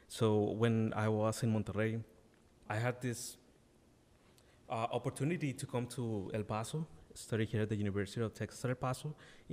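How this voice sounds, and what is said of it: Non-native English accent. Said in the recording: “You can maybe notice from my accent that English is not my first language.”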